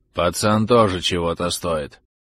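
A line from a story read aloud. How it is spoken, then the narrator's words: Low muffled voice. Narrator (Russian): глухо проговорил Мартынов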